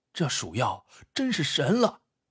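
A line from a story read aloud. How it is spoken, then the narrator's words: Muttering. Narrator (Chinese): 不知是谁嘟囔了一句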